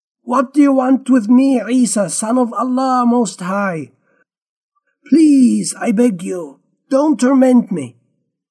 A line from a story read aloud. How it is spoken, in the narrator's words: he shouted, yelling at the top of his voice